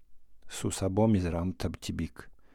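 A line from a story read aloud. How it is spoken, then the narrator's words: Muffled low voice. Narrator (Russian): глухим голосом сказал профессор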